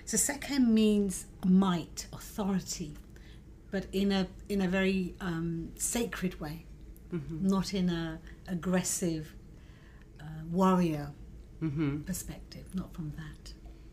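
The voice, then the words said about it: British accent. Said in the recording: “brought up in the UK, hence the British accent”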